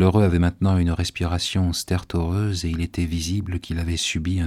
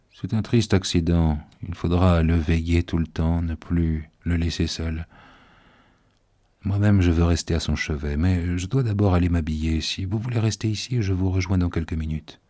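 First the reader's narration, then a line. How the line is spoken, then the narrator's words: Very calm, guarded tone. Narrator (French): il dit d'un ton très calme, assurément à cause du surveillant qui nous écoutait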